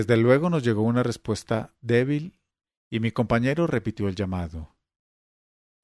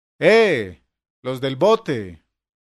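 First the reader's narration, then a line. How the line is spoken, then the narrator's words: Shouting through cupped hands. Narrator (Spanish): alzó las manos a los labios y gritó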